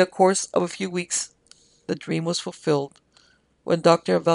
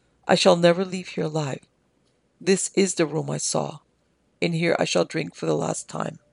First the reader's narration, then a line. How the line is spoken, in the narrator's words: she said very quietly